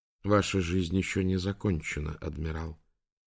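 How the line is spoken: Quiet father. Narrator (Russian): тихо проговорил папа

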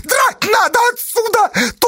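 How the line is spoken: Shrill shout. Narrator (Russian): тонко закричал Федька

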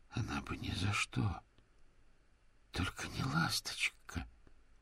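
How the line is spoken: Very quiet. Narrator (Russian): Дик очень тихо произнес

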